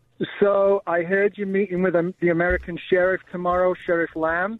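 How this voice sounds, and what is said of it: Mancunian English accent. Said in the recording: “What's that accent? That's not Arizona. ... originally Manchester, England. ... you Mancunian devil, you.”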